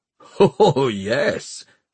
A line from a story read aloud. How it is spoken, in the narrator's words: laughed Cora